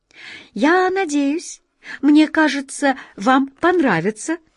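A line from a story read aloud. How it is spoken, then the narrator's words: Cheerful chirp. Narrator (Russian): радостно прощебетала она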